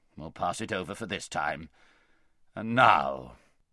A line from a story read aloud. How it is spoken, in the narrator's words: grumbled the king